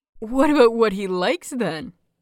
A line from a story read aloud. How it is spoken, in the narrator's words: Peachy giggled, clearly enjoying this far more than he was meant to be